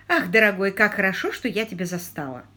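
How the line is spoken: Plain. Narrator (Russian): ответила вдовствующая герцогиня

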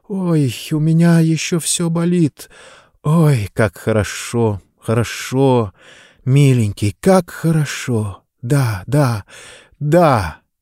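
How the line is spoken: Breathless quiet moaning. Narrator (Russian): она глухо и глубоко вздохнула, застонала и негромко, захлебываясь словами, проговорила

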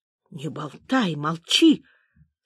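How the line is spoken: Fierce shouted whisper. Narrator (Russian): страшным шепотом закричал Митя

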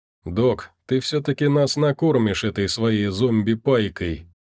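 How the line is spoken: Chuckling. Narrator (Russian): хохотнул Сагитай

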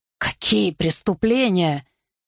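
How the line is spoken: Sharp, hoarse question. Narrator (Russian): резко спросил он хриплым голосом

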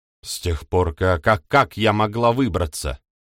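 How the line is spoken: Snapping retort. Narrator (Russian): Огрызнулась девица

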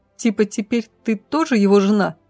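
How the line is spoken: Giggling. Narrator (Russian): хихикнула

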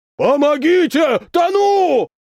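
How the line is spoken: Big man shouting. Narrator (Russian): кричал здоровяк

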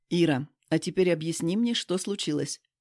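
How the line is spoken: Demanding tone. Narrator (Russian): требовательным тоном говорит

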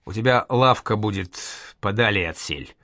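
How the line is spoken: Plain. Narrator (Russian): сказал Проворочу Калашник

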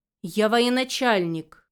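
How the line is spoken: Growl. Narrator (Russian): рыкнул на нее

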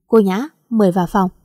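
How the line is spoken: Cold. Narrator (Vietnamese): Kiệt lạnh lùng nói

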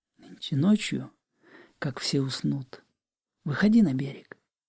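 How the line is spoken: Whisper in ear. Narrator (Russian): шепнув мне на ухо

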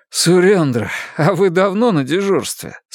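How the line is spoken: Asked after laughing. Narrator (Russian): спросил Луис, отсмеявшись

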